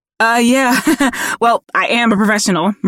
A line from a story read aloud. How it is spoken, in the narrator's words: Miranda spat out nervously